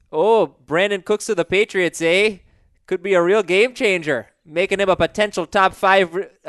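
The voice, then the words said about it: Put-on Minnesota accent. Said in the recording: “Can you read it in a Minnesota accent? ... Now he's Irish. ... He's an Irish Canadian.”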